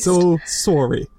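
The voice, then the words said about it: Put-on Canadian accent, rounded O's. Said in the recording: “That's my Canadian accent. ... they love their rounded O's.”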